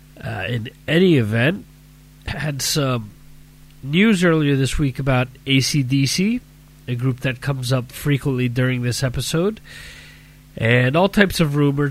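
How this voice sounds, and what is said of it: Stuffy, sick-sounding voice. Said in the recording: “As you can hear from my voice, I have a nice little cold going on”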